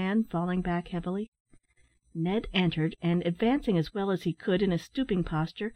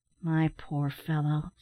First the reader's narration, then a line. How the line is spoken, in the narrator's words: said Ned in a soothing tone